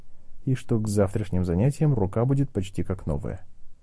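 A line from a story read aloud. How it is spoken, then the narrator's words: Quiet. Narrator (Russian): тихо произнес Гарри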